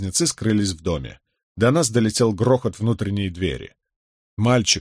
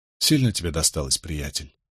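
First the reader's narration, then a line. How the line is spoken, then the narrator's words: Soft question. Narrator (Russian): мягко спросил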